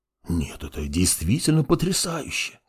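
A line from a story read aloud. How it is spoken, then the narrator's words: Awed whisper. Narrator (Russian): прошептал мертвый маг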